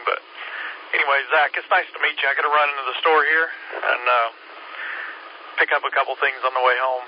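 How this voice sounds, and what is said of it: Hoarse, fading voice. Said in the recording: “I feel like I'm losing my voice, too.”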